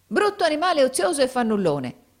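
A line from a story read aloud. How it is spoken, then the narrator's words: Woman's angry exclamation, stamping. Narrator (Italian): esclamò la donna pestando i piedi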